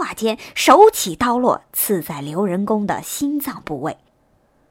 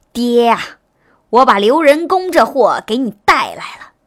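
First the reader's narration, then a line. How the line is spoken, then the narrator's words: Loud declaration. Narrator (Chinese): 大声说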